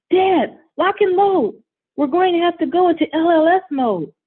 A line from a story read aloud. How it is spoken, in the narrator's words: Derek shouts